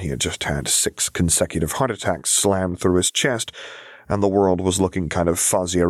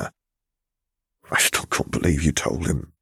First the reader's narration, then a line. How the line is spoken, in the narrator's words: he muttered as he breathed in deeply